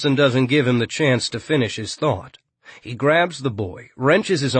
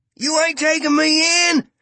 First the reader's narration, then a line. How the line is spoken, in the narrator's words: Yachts screams